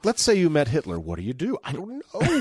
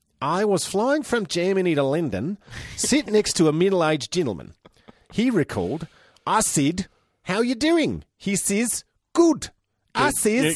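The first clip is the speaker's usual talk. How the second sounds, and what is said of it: Put-on heavy Kiwi accent, unintelligible. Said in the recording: “Should I do it in this Kiwi accent? ... Oh, it's so hard ... you have to stop the accent. I can't understand ... It's totally unintelligible”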